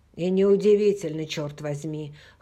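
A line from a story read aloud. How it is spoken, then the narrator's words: Hoarse after coughing. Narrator (Russian): хрипло заметил Хэл, перестав кашлять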